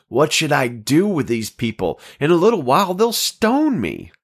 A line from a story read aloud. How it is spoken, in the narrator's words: Then Moses cried out to the Lord